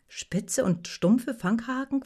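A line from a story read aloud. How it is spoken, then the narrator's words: Plain. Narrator (German): fragte sie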